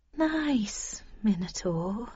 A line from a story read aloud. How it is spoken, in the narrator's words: I said soothingly